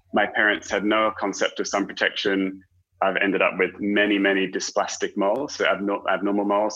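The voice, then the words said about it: British accent. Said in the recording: “you might be able to tell by my accent, grew up in the UK”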